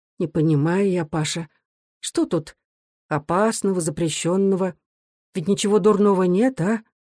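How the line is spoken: Quiet thoughtful question, mother. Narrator (Russian): Мать, задумчиво, тихо спросила

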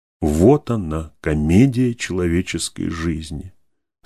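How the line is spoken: Plain. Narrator (Russian): сказал, наконец, Анненов

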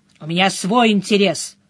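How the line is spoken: Snorting. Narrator (Russian): хмыкнул он

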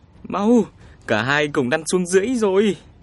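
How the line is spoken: Urgent cry. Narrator (Vietnamese): Minh Thúc kêu lên

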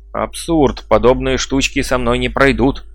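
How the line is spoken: Shouted. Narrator (Russian): крикнул он

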